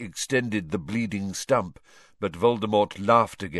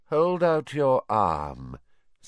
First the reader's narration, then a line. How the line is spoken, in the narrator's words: said Voldemort lazily